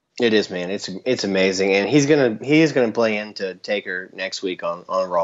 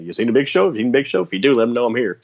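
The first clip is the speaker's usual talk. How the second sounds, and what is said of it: Imitates another person's voice. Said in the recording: “That's a good impression.”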